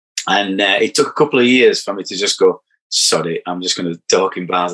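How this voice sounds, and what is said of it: Broad Barnsley Yorkshire accent. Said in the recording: “I've got a quite a broad accent. I'm from, I'm from Barnsley”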